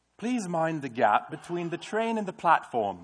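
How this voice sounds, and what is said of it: Put-on British accent. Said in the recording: “let me see if I can get it in my British accent.”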